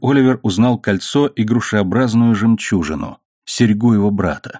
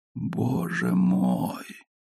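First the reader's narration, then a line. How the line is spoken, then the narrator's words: Miserable groan. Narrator (Russian): простонал несчастный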